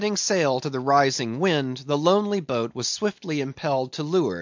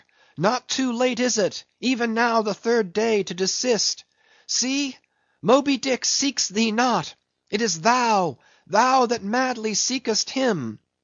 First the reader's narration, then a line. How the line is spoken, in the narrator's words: cried Starbuck